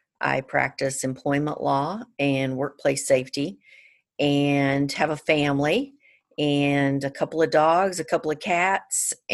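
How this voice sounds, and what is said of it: Georgia Southern US accent. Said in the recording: “I can hear that Georgia accent.”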